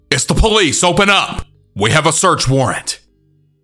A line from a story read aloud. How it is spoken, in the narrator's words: shout two more times